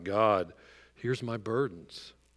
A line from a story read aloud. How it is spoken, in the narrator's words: earnestly saying